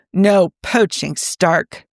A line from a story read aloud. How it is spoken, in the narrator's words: Fury growled